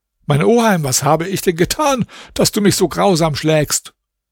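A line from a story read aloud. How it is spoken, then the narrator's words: Trembling tearful cry. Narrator (German): Zitternd und mit Tränen in den Augen rief der arme Alaeddin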